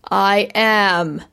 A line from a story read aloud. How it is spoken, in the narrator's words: she boomed in her best holy thunder voice